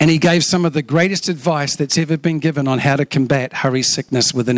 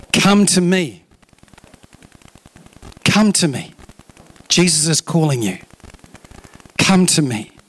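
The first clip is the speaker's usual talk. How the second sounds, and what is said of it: Slow, deliberate reading. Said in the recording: “read this slowly”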